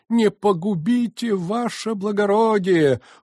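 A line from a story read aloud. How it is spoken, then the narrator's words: Desperate wail. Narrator (Russian): вопиет отчаянным голосом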